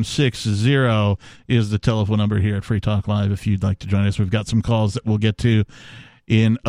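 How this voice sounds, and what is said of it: Usual voice. Nothing is said of it.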